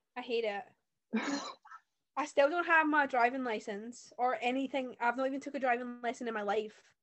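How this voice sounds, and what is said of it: Scottish accent. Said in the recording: “I live in Scotland, if you can't tell by the accent.”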